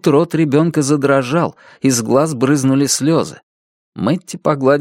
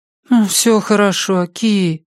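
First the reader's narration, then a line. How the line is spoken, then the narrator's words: Cooing. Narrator (Russian): проворковала Мэтти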